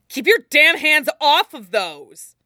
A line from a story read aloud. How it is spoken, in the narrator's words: he snaps